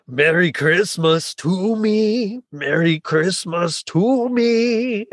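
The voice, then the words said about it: Imitated cartoon character singing voice. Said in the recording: “do my best Robotnik voice”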